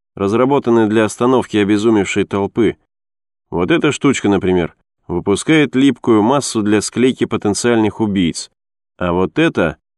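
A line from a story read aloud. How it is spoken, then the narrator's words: Calm explanation. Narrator (Russian): спокойно пояснил Сук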